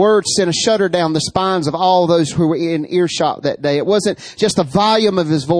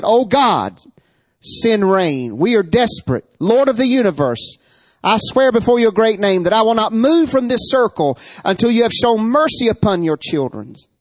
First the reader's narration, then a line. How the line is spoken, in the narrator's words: he called out to the God of heaven and said